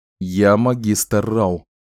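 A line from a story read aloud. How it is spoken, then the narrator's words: Plain. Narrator (Russian): сказал Ричард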